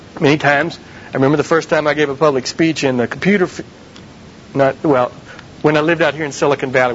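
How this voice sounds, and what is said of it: Southern American accent. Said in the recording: “a Southern American accent like I've got”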